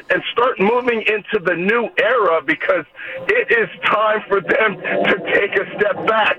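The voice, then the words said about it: Out of breath, laughing while talking. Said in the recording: “You're like running out of breath here. ... I'm trying to talk and laugh at the same time.”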